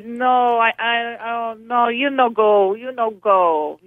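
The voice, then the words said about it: Imitated Italian accent. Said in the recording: “I'm doing it with his Italian accent.”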